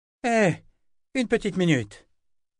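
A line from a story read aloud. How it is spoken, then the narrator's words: Exclaiming. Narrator (French): s'écria Kara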